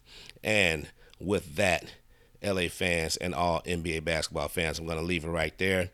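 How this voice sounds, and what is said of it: Froggy, hoarse voice. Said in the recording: “thanks for putting up with my voice today. I know I feel my voice sounds a little froggy”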